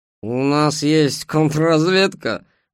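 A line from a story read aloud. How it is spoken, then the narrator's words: Mocking question. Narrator (Russian): насмешливо спросил скрипач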